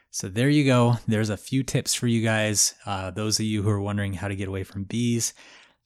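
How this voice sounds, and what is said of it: Weak, strained voice recovering. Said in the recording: “sorry if my voice sounds a little weird. I lost it the other night, so I'm still getting it back.”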